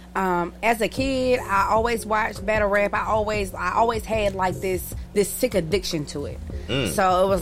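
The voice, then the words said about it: Southern American accent. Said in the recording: “That's a southern male. Now you're gonna hear that southern accent.”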